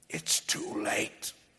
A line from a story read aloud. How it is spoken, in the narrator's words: I whisper to Whitney